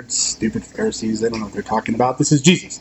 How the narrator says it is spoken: muttered

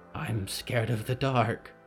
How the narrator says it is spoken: whispered Harrow

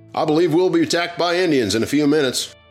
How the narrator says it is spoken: Smith screaming at the top of his lungs

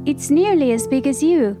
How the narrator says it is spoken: laughed Cow

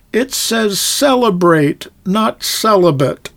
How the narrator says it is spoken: He cried out

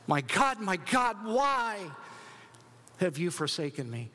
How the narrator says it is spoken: Jesus screams

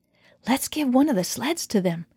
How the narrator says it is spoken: whispered

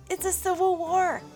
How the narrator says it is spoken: shouted Jonathan

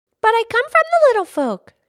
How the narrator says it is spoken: she cried

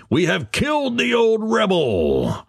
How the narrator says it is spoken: the redcoats shouting

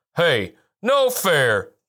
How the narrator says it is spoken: barked Ajax

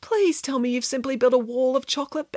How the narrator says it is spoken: begged Samantha

